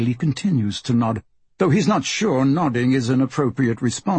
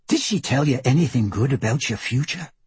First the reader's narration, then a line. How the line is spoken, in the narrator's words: Poppet asks, lowering her voice to a dramatic whisper